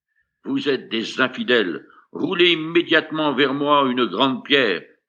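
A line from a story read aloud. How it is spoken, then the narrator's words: King exclaiming. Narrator (French): le roi s'écria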